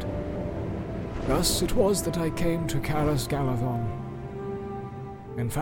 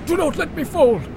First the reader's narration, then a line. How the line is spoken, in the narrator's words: I gasped, for I felt life in me again